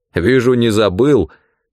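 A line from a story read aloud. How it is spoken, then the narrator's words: Dry remark with snort. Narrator (Russian): хмыкнув, констатировал капитан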